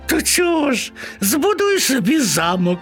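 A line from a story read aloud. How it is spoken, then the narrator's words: Laughing. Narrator (Ukrainian): засміялися миші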